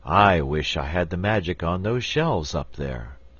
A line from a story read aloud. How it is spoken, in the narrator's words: sighed the wizard